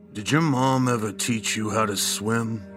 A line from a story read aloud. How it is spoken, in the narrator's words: his voice distant and dry, he asked